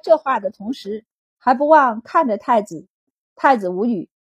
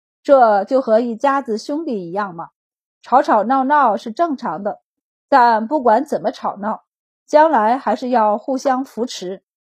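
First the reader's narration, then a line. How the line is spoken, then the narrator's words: Emperor, sighing. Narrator (Chinese): 皇帝便点头感叹道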